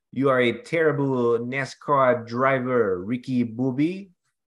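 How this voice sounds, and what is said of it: Bad put-on French accent. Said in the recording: “the worst French accent I've ever heard”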